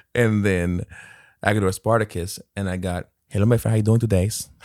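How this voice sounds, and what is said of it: Put-on Hispanic accent. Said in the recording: “So it's my accent,... that was my Ernesto character”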